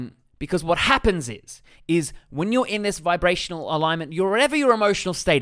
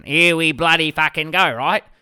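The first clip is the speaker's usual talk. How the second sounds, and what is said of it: Exaggerated broad Australian accent. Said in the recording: “In my very Australian accent.”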